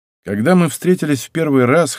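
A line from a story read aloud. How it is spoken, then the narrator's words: Snorting. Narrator (Russian): хмыкнул я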